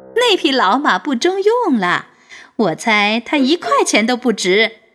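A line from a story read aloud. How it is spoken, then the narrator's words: Laughing loudly. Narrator (Chinese): 大声地笑了起来 说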